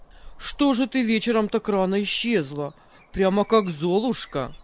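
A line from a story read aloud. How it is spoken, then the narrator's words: Cheerful, ordinary tone. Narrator (Russian): Обычным, веселым тоном заговорил Максим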